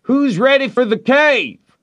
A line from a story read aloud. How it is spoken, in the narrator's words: somebody shouted